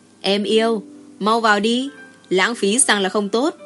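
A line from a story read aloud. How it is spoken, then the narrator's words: Chuckling heartily. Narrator (Vietnamese): cười hà hà nói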